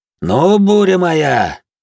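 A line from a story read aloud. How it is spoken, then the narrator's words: Shouting. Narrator (Russian): крикнул Винсент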